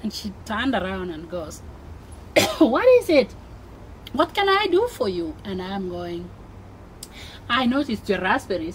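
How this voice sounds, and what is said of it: African-accented English. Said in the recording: “with your accent ... they have never even seen Africans ... with my accent”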